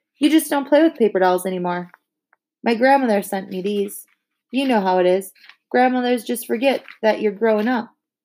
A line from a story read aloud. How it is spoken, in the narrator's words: gave a little sigh